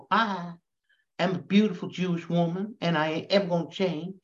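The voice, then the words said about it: Put-on Southern accent. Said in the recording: “I don't know why I decided to give her a southern accent rather than a Boston accent.”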